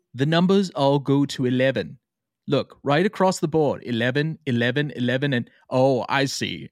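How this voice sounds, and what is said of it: Poor put-on British accent. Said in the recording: “the poor British accent and Rob Reiner impersonation I'm about to do”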